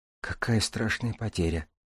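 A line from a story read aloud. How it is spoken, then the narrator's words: Whisper. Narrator (Russian): прошептала Купава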